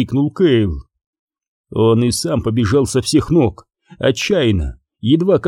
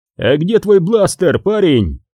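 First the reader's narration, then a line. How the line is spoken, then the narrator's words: Shout. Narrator (Russian): крикнул Хан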